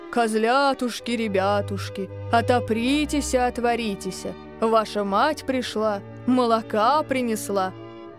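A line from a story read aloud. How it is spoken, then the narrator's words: Singing in thick voice. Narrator (Russian): запел своим толстым голосом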